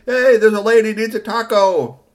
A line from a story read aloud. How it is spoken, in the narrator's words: Kashi was in there yelling, saying